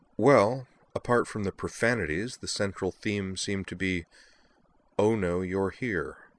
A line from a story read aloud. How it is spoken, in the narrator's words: sighed